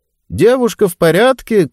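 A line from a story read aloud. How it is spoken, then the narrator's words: Shouted. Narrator (Russian): крикнул тот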